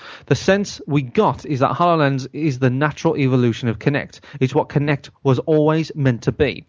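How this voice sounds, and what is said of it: Usual voice. Nothing is said of it.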